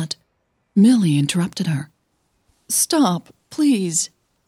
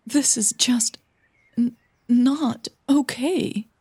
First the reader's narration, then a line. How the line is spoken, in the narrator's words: Millie stammered